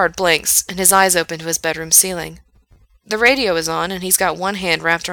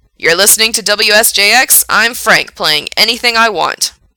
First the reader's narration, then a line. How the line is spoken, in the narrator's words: says loudly in Gerard's ear